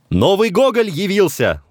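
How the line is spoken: Shouted. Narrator (Russian): закричал Некрасов

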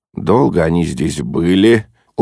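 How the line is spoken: Dejected voice. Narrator (Russian): упавшим голосом сказал Холмс

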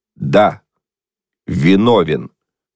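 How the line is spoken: Loud reading, foreman. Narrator (Russian): старшина громко прочитал

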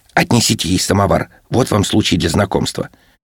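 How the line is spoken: Whispered. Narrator (Russian): Варвара шепнула Гирькину

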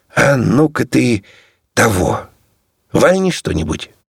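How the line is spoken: Pleading tone. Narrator (Russian): сказал просительным тоном

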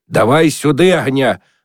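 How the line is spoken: Hoarse yelling. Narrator (Russian): орал Миныч хриплым голосом

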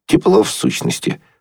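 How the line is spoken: Exhausted mumble. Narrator (Russian): пробормотал Еня, чувствуя, что он падает от усталости

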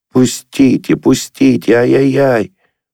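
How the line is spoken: Terrible piercing pig-like squeal. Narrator (Russian): Голос его визжал и резал, как визг недорезанного поросенка, и был ужасен

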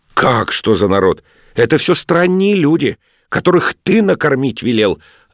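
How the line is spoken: Snapping retort. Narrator (Russian): огрызнулась ловчиха

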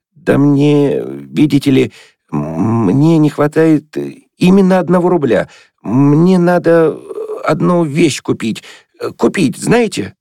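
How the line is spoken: Embarrassed, stammering. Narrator (Russian): Игумнов зарделся и, запинаясь, принялся объяснять

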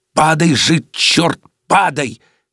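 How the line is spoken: Furious hissing whisper. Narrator (Russian): бешеным шепотом зашипел на него режиссер

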